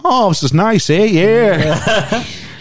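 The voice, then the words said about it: Bad sing-songy Canadian accent. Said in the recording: “your impression of a Canadian person is one of the worst impressions of a Canadian person I've ever heard ... how the Americans make fun of our accents ... that same sort of sing-songy thing”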